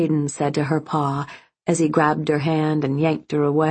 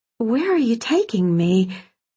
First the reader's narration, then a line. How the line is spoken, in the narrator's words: she asked nervously